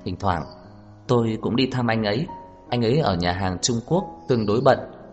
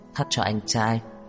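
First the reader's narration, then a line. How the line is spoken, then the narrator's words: Soft laugh. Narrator (Vietnamese): cười khẽ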